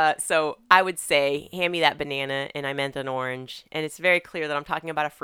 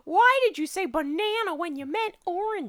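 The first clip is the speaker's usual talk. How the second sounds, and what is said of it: Imitates a child's voice. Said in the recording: “That's the worst impression I've ever done of our kid ... Is she Nelson from The Simpsons? ... I mean, Ralph Wiggum.”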